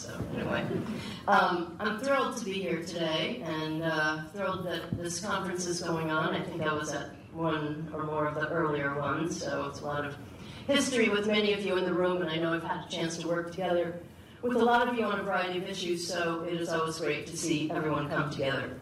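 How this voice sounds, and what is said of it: Slightly congested voice with a cold. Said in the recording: “I have a little bit of a cold, so excuse me if I start coughing”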